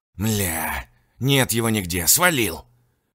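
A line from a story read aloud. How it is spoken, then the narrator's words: Growling man. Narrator (Russian): прорычал эвакуаторщик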